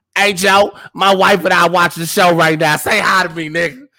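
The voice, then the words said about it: Imitating a friend's voice. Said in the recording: “this is how DeAndre talk. I'm gonna do his exact voice.”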